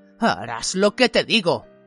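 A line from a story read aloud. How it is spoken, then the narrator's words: Growled. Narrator (Spanish): gruñó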